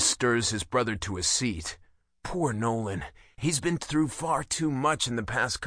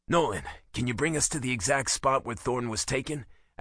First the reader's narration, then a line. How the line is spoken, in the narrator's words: asks Reese